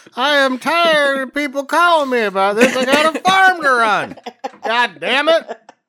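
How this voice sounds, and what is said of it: Put-on Indiana accent. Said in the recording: “I like your Indiana accent. ... I don't think that's quite accurate.”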